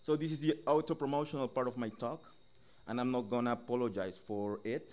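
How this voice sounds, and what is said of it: English with Latin American accent. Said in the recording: “my accent when reading ... speaking English this way has become really popular and exotic and suave”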